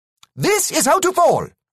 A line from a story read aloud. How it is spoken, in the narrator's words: shouted again